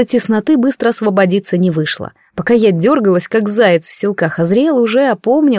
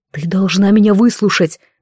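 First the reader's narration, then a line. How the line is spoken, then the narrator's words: Breathless exhale. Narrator (Russian): выдохнул он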